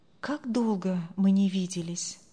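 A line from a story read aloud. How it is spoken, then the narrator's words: Inward sigh. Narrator (Russian): вздохнул про себя Андрей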